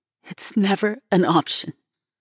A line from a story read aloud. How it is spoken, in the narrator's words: she stutters